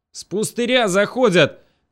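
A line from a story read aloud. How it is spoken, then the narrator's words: Shouting. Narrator (Russian): крикнул Напалм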